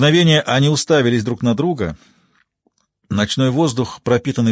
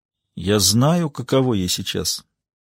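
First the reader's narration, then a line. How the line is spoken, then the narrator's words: Quiet. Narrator (Russian): тихо произнесла она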